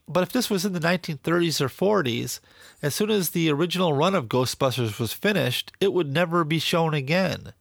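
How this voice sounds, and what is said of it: Nasal, congested voice. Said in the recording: “my voice sounds a little nasally today, and I'm probably pronouncing things a little off. That's because I have a cold.”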